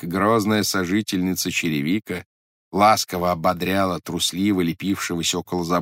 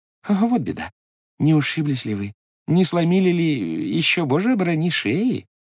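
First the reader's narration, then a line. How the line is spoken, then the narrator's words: Caring babbling. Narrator (Russian): лепетала заботливая Хивря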